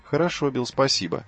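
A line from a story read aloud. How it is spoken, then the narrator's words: Plain. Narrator (Russian): ответил Хью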